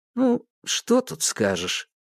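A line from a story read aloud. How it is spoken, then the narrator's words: Sighing. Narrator (Russian): Никитос вздохнул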